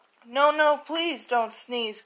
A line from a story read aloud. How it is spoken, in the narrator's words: cried the monkeys in the trees